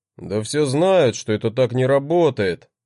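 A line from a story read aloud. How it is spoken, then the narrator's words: Grumbling, displeased. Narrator (Russian): проворчал он с недовольным лицом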